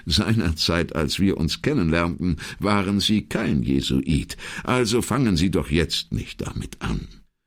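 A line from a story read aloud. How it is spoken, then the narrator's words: Sighing, then laughing. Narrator (German): seufzte er endlich und fuhr dann lachend fort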